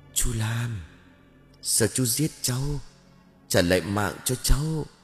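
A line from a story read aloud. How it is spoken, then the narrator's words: Whispered call. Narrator (Vietnamese): Quyền thì thào gọi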